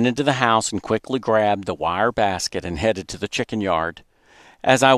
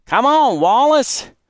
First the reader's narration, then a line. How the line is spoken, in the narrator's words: Virgil yell from the pasture